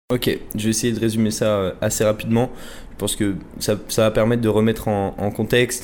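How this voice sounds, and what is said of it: French accent from France. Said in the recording (French): “je viens de France, vous entendez mon accent”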